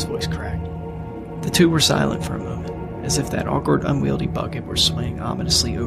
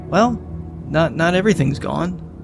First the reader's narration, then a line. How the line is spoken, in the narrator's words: said, though her smile did falter a bit